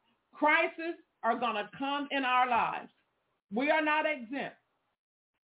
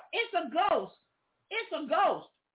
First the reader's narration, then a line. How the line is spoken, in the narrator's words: They cried out